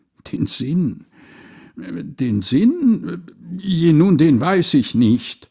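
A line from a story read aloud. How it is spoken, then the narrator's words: Stammering. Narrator (German): stotterte der arme Wicht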